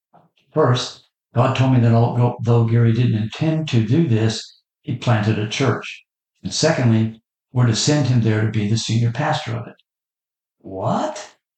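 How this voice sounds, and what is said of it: Solemn Old Testament prophet voice. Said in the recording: “The senior pastor continued in his best Old Testament prophet impersonation.”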